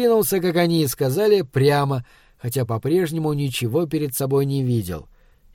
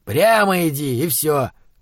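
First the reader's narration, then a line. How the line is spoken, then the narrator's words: Through gritted teeth. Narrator (Russian): процедил Схал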